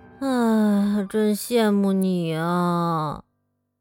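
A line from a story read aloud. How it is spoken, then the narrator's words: Muttering. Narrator (Chinese): 比尔嘟囔着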